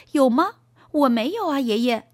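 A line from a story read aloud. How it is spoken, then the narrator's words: Laughing. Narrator (Chinese): 托尼笑了，说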